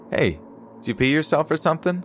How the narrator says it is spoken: pierced my ears

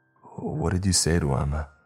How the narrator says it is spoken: I asked in a strained voice

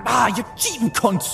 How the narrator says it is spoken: Dano snarled

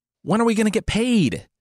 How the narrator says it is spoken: yelled

